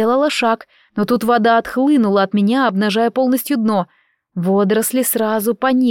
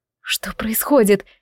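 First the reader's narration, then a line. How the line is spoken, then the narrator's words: Frightened question. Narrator (Russian): испуганно спросила я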